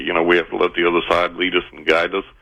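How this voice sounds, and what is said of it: West Texas accent. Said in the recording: “you sound like my excellent Uncle Pal from Texas ... Well, I am from West Texas”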